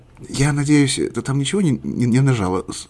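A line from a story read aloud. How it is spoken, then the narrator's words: Quiet question. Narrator (Russian): тихо спросил Борис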